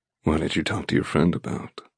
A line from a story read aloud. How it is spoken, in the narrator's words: He rasps, his breath caressing my lips